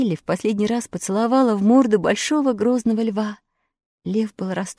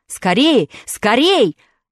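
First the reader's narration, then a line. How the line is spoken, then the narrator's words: Alarmed wizard shouting. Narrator (Russian): закричал встревоженный волшебник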